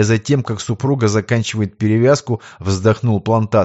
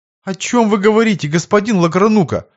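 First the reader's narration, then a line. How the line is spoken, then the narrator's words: Confused babbling. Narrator (Russian): пролепетал растерянный приказчик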